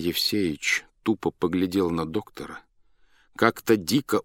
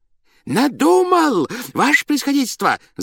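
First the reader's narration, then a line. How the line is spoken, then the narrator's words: Joyful shout, strange voice. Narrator (Russian): закричал он радостно, не своим голосом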